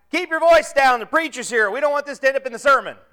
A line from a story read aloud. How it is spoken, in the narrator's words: the other guy shout back